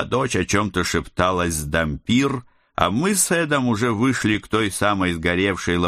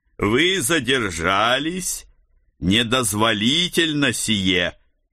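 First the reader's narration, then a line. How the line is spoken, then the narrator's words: Strange metallic voice. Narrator (Russian): Каким-то странным металлическим голосом произнесла фигура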